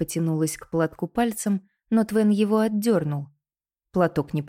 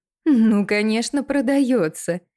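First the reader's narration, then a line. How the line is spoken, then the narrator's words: Ringing laughter. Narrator (Russian): Миссис Девенпорт звонко засмеялась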